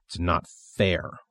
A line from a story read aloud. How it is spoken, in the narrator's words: William grumbles